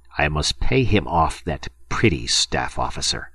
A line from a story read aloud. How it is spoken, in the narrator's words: he had said grimly